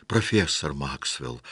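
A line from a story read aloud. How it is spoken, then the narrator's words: Exclaiming. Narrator (Russian): воскликнул он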